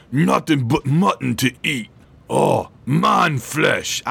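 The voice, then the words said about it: Put-on Cockney orc voice. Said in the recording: “I guess the orcs are Cockney, then. I mean, because, you know, the orcs are all like”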